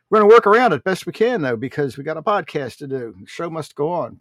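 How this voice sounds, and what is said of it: Stuffy, congested-sounding voice. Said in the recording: “I have very, very severe allergies today... You can probably hear it in my voice.”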